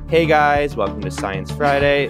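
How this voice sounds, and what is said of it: Lifestyle influencer voice. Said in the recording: “the standard lifestyle influencer”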